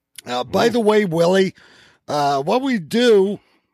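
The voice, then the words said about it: Yelling, loud voice. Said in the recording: “I don't know why I'm yelling at you. You just seem so far away.”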